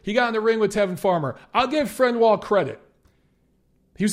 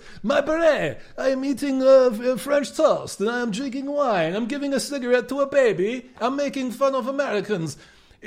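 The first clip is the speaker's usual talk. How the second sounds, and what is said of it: Mock French accent, sounding Eastern European. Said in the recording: “my French accent is turning slightly Sergei Kovalev-esque ... you sounded like Borat ... that was almost a Kazakh French guy there”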